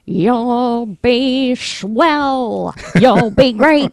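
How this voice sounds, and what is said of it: Imitates another person's voice. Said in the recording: “do a little Ethel Merman impression ... That's pretty good.”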